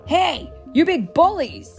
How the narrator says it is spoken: Ant-Man shouted

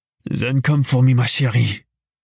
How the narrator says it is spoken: he growled

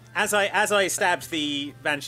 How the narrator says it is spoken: I shouted loudly

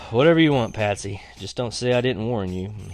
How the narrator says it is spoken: Dad took a deep breath, then sighed and said

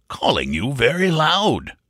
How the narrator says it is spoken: growled

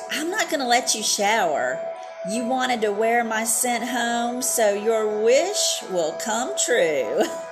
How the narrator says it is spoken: mocked

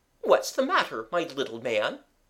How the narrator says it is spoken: said the respectable Ugly Wuggly kindly

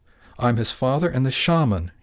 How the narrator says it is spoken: he answered hotly

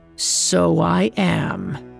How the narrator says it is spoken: it growled

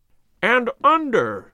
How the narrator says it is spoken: he cried

